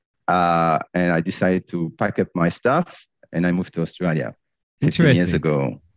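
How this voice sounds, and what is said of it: French accent. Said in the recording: “I haven't lost my accent ... you're born in Paris, grew up in the south of France”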